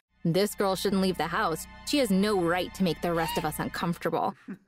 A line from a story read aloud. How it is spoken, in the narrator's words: mocking me, saying